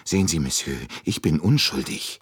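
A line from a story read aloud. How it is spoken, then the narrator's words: Still fearful. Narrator (German): sagte Michel noch immer ängstlich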